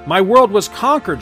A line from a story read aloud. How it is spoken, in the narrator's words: cries